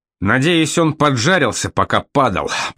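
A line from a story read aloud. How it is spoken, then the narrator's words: Through gritted teeth. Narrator (Russian): процедил сквозь зубы капитан Браун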